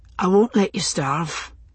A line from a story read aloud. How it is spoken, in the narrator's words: he said at last, softly